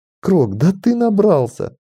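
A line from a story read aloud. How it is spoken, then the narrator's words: Giggling. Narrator (Russian): хихикнула Ланиэль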